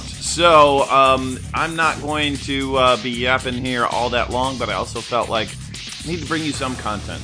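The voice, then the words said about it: Sore, strained voice. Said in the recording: “If I don't have the energy, it's simply because, well, my voice is hurting ... strep throat”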